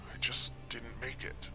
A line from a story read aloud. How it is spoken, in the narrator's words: I mumbled again